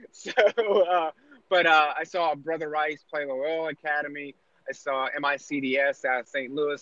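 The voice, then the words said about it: East Coast American accent. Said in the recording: “an East Coast guy. It's just the accent.”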